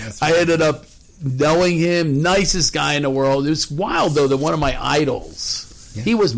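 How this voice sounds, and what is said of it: Usual voice. Nothing is said of it.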